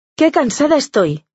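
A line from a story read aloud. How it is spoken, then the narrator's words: Exclaiming. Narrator (Spanish): exclama Mónica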